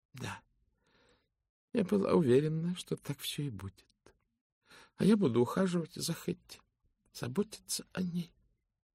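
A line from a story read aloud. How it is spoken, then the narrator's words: Quiet. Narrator (Russian): тихо проговорила миссис Фолиат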